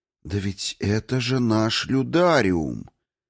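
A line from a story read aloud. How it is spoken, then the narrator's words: Slow shadow voice. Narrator (Russian): тень медленно произнесла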